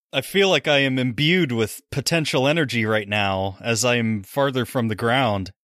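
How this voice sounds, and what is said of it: Usual voice. Nothing is said of it.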